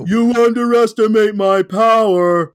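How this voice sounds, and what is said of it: Imitates a movie character's voice. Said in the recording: “he makes me do the Anakin accent.”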